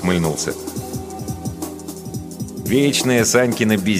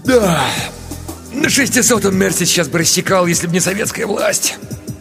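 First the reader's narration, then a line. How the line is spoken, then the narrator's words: Wistful, longing sigh. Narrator (Russian): Ерошкин вздохнул с белогвардейской тоской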